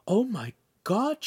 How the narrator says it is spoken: Shamira gasped

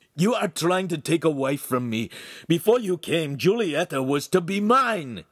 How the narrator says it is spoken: he shouted

